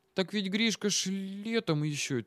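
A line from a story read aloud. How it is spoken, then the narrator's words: Puzzled girl murmuring to herself. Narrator (Russian): тихо, словно про себя, недоуменно спросила девчонка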